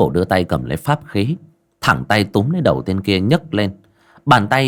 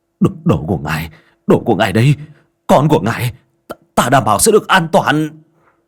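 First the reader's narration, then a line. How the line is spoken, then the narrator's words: Terrified trembling plea. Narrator (Vietnamese): Hắn hoảng hốt cầu xin, miệng run rẩy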